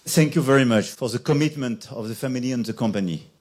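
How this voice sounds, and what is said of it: French-accented English. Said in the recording (German): “diesen französischen Akzent”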